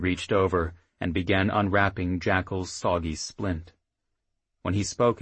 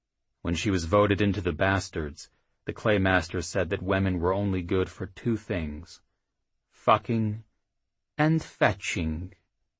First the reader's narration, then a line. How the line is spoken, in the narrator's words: Crafty finished blandly